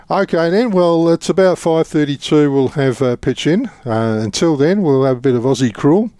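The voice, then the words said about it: English accent, heard as Scottish. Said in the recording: “It's just me English accent, lad. ... Sounds Scottish to me.”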